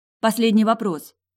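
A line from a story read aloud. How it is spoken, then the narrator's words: Hurried. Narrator (Russian): торопливо проговорила я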